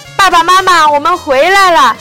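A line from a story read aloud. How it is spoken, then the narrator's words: Girl calling out. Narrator (Chinese): 一个女孩叫着说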